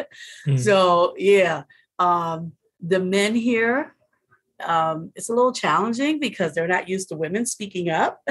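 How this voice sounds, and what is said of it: American accent. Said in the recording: “as for being an American here ... the minute they hear my accent”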